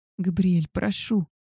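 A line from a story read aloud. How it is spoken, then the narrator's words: Pleading. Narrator (Russian): взмолилась я, сама не зная о чем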